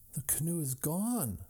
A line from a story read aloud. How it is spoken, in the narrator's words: he groaned